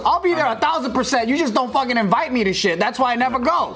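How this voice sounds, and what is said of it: Yelling. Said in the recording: “Stop yelling at me right now on camera”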